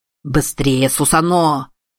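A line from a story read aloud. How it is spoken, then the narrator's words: Growling. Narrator (Russian): прорычал Широ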